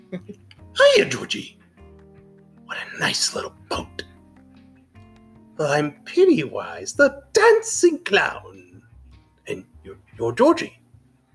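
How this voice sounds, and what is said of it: Pennywise the clown impression. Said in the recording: “your It Chapter One impression of him in the gutter”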